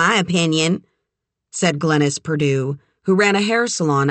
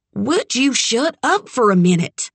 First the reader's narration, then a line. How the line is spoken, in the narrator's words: Doc snapped